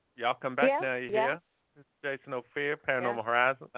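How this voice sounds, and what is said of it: Bad fake Southern accent. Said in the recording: “southern accent ... I could try to fake it. ... It doesn't sound right when I try and fake it. ... It sounds horrible.”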